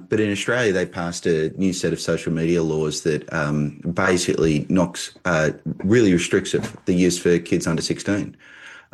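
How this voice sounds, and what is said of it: Australian accent. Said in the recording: “this accent, in fact, does not come from Michigan. It comes from Australia.”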